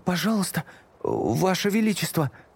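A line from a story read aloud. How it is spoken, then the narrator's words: Babbling. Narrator (Russian): лепетал Эдмунд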